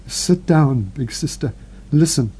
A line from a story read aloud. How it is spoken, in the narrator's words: Marguerite, shivering from head to foot, stammered